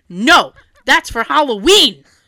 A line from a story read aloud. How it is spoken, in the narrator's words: In my dream, I yelled out loud